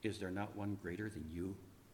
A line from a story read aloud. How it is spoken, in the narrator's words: as death wrapped himself about me to snuff out the last ember of my life, I whispered to death